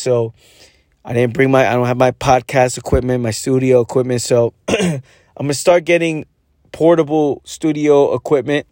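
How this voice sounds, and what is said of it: Strained, fading voice over phone. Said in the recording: “the quality is different because I'm on the phone ... I'm losing my voice”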